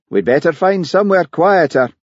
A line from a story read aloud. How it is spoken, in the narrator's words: Hamish raised his voice above the noise of the falls and said